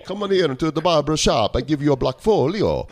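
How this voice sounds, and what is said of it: Put-on Italian accent. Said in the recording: “Sounds Italian.”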